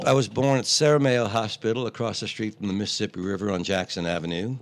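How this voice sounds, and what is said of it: New Orleans Yat accent. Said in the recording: “Siri doesn't get my Yat accent”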